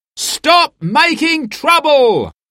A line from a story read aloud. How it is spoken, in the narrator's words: they shouted